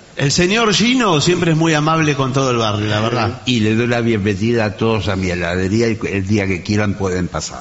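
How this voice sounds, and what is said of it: Italian accent. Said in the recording (Spanish): “No perdió el acento italiano, ¿no? ... parece Vittorio de Sica.”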